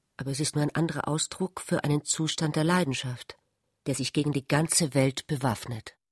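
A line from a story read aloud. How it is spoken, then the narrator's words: Embarrassed. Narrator (German): sagte Ulrich verlegen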